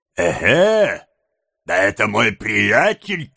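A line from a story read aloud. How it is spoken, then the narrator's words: Shouting. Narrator (Russian): крикнул тот же голос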